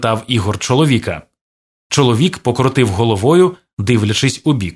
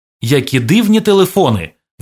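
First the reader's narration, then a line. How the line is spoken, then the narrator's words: Exclaimed. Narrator (Ukrainian): вигукнув Ігор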